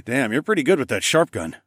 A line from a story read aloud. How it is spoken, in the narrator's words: chuckled